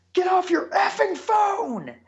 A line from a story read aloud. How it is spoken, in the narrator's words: I yell